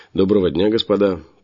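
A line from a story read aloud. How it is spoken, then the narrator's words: Almost cheerful greeting. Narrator (Russian): почти весело поприветствовал я их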